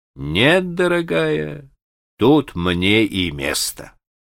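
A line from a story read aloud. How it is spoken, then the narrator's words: Sad but firm. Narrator (Russian): он отвечал ей грустно, но твердо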